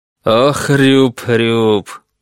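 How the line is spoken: Laughing. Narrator (Russian): Данцигер засмеялся

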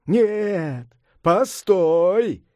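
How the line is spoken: Shout. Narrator (Russian): крикнул Сунь-Укун

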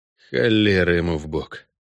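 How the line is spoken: Grumbled. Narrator (Russian): проворчал Геральт, не удержался и добавил

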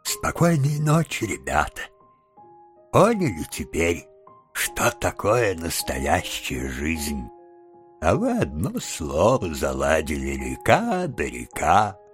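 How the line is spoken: Blissful sleepy mumble. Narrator (Russian): Мистер Джабс, блаженно растянувшись во весь рост и уже засыпая, пробормотал

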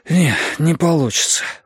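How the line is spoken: Breathless. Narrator (Russian): выдохнул я

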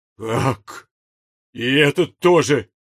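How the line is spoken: Anguished groan. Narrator (Russian): простонал князь с такой мукой

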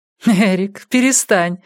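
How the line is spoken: Laughing. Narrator (Russian): сказала она, смеясь

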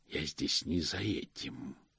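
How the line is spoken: Sinister hiss. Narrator (Russian): прошипела мрачная фигура

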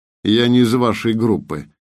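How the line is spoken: Dry reply. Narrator (Russian): ответил Артем сухо

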